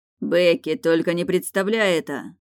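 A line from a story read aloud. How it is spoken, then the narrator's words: Desperate shout. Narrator (Russian): В отчаянии выкрикнул муж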